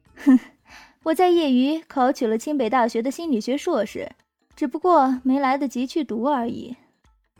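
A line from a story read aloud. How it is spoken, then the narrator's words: Light laugh. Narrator (Chinese): 冷月 … 他笑了笑，说道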